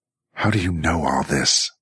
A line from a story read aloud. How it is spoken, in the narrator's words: Jackie snarled